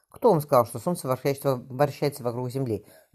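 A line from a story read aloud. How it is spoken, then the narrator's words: Laughing. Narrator (Russian): рассмеялся Джордана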